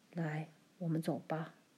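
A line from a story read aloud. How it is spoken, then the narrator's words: Low voice. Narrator (Chinese): 爸低声对妈说道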